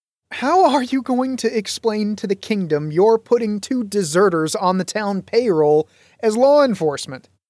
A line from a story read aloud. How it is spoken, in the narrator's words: asked in lieu of laughter